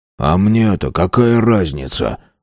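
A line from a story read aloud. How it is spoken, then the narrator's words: Sullen grumble. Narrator (Russian): угрюмо буркнул Тиренс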